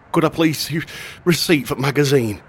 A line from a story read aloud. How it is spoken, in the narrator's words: panted